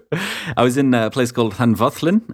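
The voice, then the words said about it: Welsh accent on place name. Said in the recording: “Oh, listen to that Welsh accent right there. That's how you do it.”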